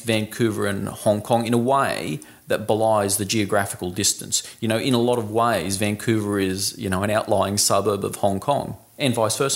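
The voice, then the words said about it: Australian accent. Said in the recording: “they hear your Australian accent”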